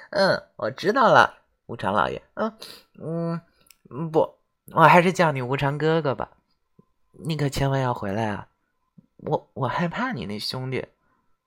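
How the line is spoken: Sweet giggling voice. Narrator (Chinese): 李由咯咯咯的笑了几声，然后甜甜的说

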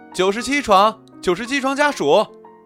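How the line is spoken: Nurse calling out. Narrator (Chinese): 护士叫着

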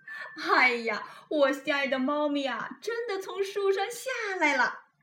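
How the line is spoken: Laughing happily. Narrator (Chinese): 开心的大笑起来，说

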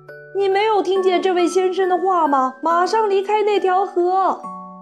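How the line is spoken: Woman shouting. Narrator (Chinese): 格鲁普太太也叫起来

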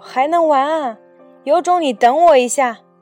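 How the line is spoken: Startled shout. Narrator (Chinese): 何木子一愣，大叫

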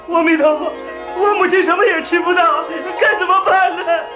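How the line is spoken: Crying. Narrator (Chinese): 木莲啼哭着说

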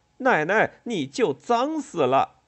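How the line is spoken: Loud, disgusted. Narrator (Chinese): 周平也忍不住了 嫌恶的 大声说

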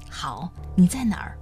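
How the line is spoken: Through gritted teeth. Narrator (Chinese): 温言咬牙一说

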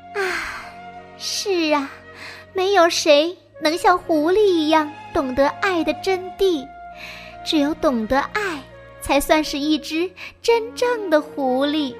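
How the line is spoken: Deeply moved sigh. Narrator (Chinese): 第三只狐狸感叹万分

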